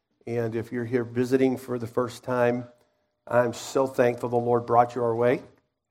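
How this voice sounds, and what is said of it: Unwell, under-the-weather voice. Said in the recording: “my voice is a little under the weather today, so they have the mic pumped up pretty high ... struggling with the pollen ... it really got me”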